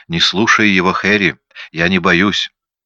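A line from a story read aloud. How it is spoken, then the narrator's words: Calm. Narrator (Russian): Нина произнесла спокойно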